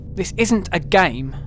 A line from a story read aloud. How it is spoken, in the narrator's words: snaps